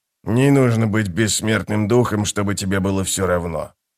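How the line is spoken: Muttering. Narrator (Russian): пробормотал он

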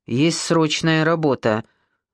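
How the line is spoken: Stern. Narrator (Russian): сказал строго

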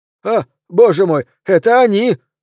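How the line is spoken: Exclamation. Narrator (Russian): воскликнул Пелвис

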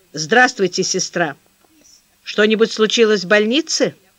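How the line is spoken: Dry, clipped question. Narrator (Russian): Сухо, отрывисто спрашивает Королев

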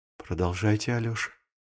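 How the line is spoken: Quiet. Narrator (Russian): тихо сказала Зиночка

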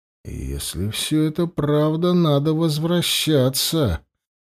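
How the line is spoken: Mutter. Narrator (Russian): пробормотал

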